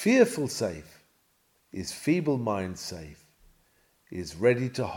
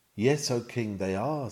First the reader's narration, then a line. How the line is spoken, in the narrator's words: says